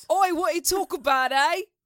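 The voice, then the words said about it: Put-on British accent. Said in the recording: “have you heard my British accent? This is way more accurate... I think your Queens accent is better than your British accent.”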